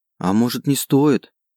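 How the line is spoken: Timid objection. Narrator (Russian): робко возразила Марика

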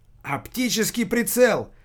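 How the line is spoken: Driver shouting out. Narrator (Russian): выкрикнул водила

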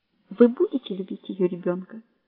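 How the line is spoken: Quiet question. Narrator (Russian): тихо спрашивает она

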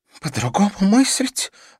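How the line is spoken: Breathed out, then sobbing. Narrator (Russian): выдохнула мадам Рамирес и, уже не сдерживаясь, зарыдала

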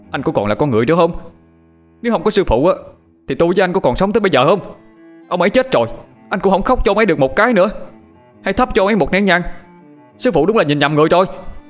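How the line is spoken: Indignant boy shouting. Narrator (Vietnamese): Thấy thằng Phúc tỏ thái độ thờ ơ trước cái chết của sư phụ, thằng Toàn không nhịn được, nó bèn hét lên

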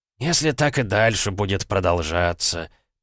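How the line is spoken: Muttering doctor. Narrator (Russian): пробормотал доктор

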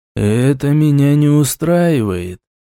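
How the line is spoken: Thoughtful voice over magical link. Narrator (Russian): задумчивым голосом произнесли на другом конце амулетной связи

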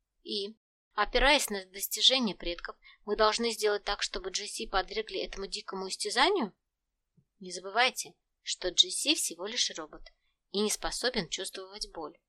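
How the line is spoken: Plain. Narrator (Russian): ответил Куши

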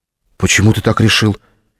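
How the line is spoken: Frightened question. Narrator (Russian): испуганно спросила Лена

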